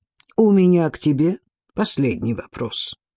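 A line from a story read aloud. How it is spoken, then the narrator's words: Quiet. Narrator (Russian): негромко сказал император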